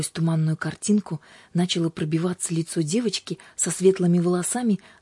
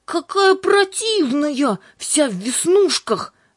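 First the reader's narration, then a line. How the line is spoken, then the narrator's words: Shouted. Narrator (Russian): закричала Юлька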